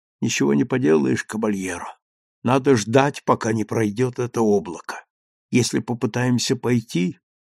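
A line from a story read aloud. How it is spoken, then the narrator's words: Whisper. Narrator (Russian): Он только прошептал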